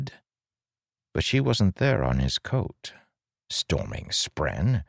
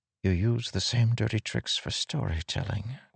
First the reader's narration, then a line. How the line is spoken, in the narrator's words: Wit whispered